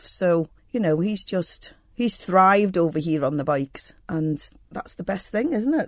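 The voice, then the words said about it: Scottish twang to accent. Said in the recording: “you have a twang to your accent ... Originally from Scotland”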